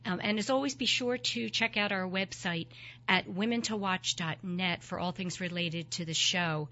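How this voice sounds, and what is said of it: Froggy, hoarse voice from cold. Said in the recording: “I have a little bit of a cold... my froggy voice”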